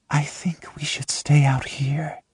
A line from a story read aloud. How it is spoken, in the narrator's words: she whispers